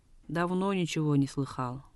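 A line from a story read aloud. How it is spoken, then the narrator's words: Curt, dry. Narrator (Russian): коротко и сухо ответил Пунцок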